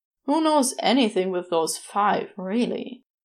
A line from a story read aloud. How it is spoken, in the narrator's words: Aziraphale sighed